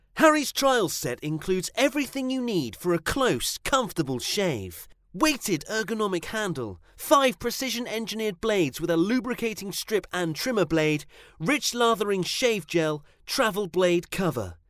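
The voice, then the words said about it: Exaggerated advertising announcer voice. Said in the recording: “try the best advertising voice”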